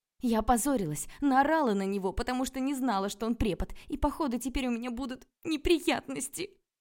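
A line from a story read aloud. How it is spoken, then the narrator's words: Sobbing report. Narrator (Russian): Сообщила я и всхлипнула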